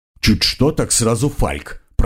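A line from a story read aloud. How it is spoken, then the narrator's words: Grumbling. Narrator (Russian): проворчал Карл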